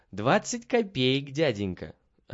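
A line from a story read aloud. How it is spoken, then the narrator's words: Answered, laughing merrily. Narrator (Russian): ответил Петя и весело засмеялся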